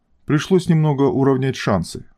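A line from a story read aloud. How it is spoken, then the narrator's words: Calm reply. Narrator (Russian): спокойно ответила модифицированная девушка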